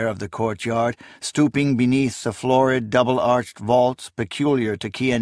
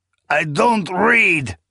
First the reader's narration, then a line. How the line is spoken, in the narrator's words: he growled